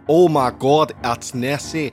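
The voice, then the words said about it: Awful put-on Scottish accent. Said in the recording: “I'm doing an awful Scottish accent.”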